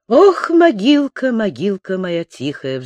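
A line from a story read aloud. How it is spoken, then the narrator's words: Prisoner's sigh. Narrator (Russian): вздохнул узник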